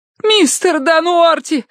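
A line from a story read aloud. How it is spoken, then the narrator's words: Screaming. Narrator (Russian): завопила Киврин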